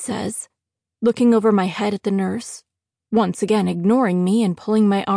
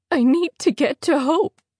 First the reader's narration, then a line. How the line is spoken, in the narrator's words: whimper